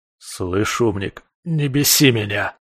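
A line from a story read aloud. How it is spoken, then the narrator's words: Growled. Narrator (Russian): рыкнул я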